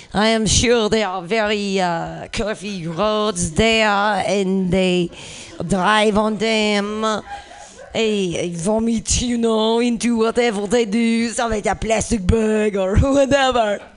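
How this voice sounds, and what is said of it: Put-on French accent. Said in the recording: “This is me trying to do a French accent.”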